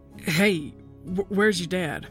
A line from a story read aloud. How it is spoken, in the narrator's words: Uncle Mick seemed to sputter